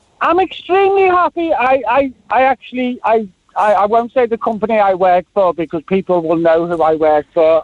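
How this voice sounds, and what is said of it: Liverpool accent. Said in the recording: “you can hear I'm not from Cork ... because the accent, right? ... I was gone from Liverpool by the time I was 30”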